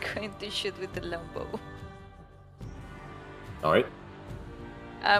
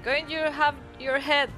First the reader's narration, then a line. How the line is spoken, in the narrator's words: I'm going to shout